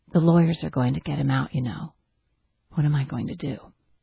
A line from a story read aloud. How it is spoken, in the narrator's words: said in a steady voice